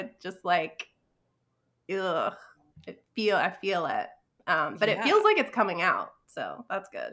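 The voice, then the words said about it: Congested, sinusy voice. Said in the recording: “I am sinusy, which you can probably hear in my voice”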